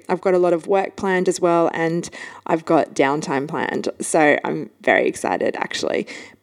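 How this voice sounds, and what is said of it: Slightly funny, sick-sounding voice. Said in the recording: “sorry about my voice. It's a little bit funny. I've been a little bit sick.”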